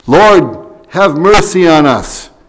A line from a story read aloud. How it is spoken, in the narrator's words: They had cried out to Jesus